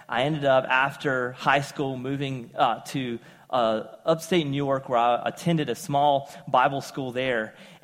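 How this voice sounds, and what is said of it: Southern American accent. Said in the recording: “a southern accent”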